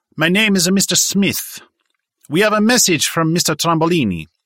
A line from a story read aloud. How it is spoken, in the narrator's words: The gunman said with an Italian accent